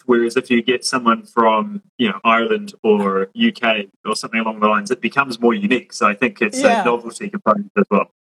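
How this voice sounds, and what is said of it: English accent. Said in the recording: “I'm listening to your accent ... he was from England. And I was just like, oh, you guys have the coolest accents”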